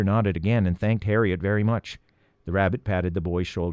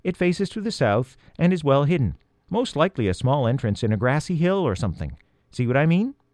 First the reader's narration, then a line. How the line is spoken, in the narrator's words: Harriet continued kindly, seeing Peter's embarrassment